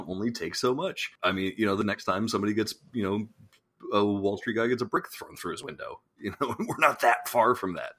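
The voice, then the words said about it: Massachusetts accent. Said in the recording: “I broke into the Massachusetts accent there. It happens from time to time ... we appreciate your accent ... one masshole”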